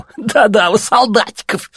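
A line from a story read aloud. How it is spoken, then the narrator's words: Laughing. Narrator (Russian): засмеялся другой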